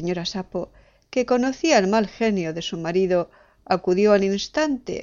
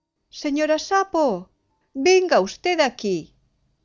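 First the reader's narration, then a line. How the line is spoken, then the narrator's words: Shouted. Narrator (Spanish): gritó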